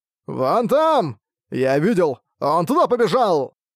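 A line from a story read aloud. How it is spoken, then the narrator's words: Crowd shouting loudly. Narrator (Russian): десятки людей, громко крича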